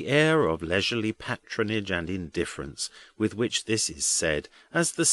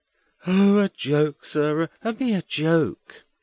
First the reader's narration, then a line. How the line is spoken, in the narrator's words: Edwin cuts in with a provoking yawn